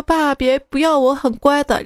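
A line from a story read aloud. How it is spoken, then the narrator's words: Sobbing. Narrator (Chinese): 他大哭说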